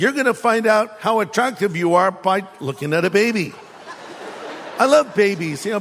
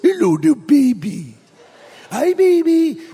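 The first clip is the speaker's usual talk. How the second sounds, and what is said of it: Small baby-talk voice. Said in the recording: “in a little voice”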